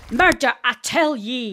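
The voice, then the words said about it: Exaggerated Scottish accent. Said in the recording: “people murdering the Scottish accent”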